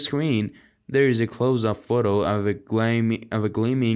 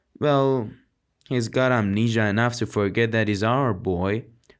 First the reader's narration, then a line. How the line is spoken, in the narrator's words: Aaron says wearily